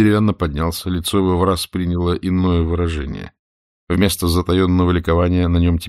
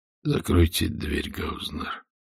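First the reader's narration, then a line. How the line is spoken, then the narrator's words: Quiet speech. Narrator (Russian): так же тихо сказал Пепе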